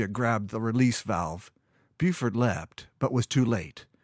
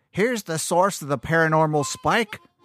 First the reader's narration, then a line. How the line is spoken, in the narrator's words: a crazy-haired old woman shouted